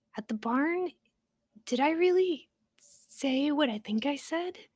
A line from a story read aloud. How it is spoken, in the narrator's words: She asked nervously